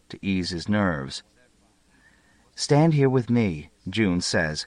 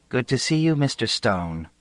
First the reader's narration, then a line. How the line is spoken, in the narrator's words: says Citrine